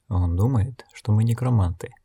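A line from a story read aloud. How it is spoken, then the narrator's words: Whisper. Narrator (Russian): шепнула она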